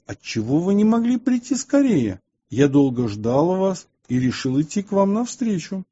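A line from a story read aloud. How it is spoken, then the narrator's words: Laughing mocking question. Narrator (Russian): Святый же, смеясь над ними, спросил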